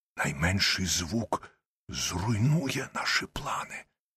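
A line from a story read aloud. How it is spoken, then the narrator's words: Barely audible whisper. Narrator (Ukrainian): Холмс знову прошепотів мені у вухо, але так тихо, що я ледве почув його слова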